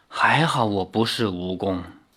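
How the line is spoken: Sighing. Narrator (Chinese): 陈思轨叹道

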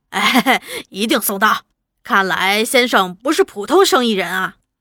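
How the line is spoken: Laughing. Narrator (Chinese): 那伙夫 也笑着说

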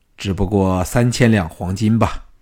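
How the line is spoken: Low, suppressing laughter. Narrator (Chinese): 乌应元忍着笑 低声说

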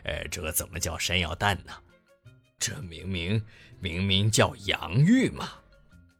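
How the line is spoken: Laughing. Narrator (Chinese): 熊伯伯忍不住笑起来

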